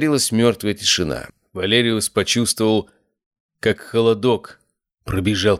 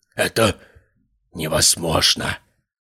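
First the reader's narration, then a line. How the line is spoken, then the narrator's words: Whisper. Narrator (Russian): прошептал он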